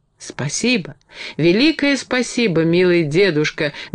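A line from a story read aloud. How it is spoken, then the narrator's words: Fervent exclamation. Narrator (Russian): горячо воскликнула Энни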